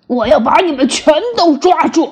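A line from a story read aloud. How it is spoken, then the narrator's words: Loud roar. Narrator (Chinese): 大声的吼道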